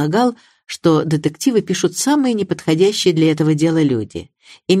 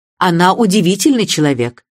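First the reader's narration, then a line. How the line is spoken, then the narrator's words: Impatient. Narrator (Russian): нетерпеливым тоном сказала миссис Бантри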